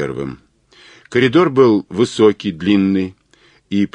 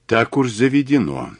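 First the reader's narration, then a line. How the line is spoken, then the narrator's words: Quiet. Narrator (Russian): негромко сказал Глаголев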